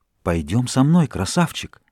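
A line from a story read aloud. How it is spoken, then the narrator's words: Street women whispering. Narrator (Russian): уличных женщин, шептавших ему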